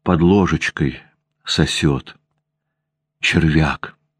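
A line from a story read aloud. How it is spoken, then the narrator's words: Dejected voice. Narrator (Russian): упавшим голосом говорила Ванда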